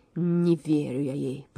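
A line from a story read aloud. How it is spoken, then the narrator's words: Growled. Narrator (Russian): прорычал Лев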